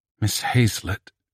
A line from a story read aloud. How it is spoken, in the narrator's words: she gasped